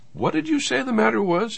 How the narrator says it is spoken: he said timidly

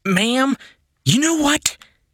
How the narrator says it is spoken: Jennifer yelled

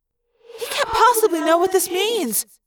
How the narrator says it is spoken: Cassie cried

